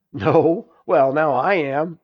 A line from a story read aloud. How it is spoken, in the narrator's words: laughed Nancy